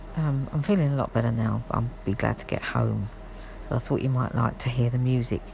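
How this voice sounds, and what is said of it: Croaky voice. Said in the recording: “Excuse my croaky voice. I have got a little bit of a cold”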